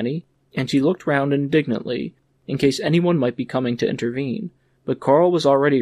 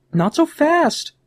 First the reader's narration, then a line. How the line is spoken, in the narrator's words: cried Fanny